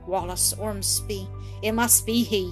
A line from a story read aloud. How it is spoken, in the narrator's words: as if struck dumb with surprise and dismay, then muttering